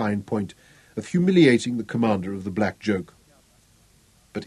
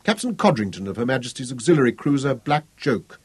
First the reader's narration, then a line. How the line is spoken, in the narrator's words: introduced himself stiffly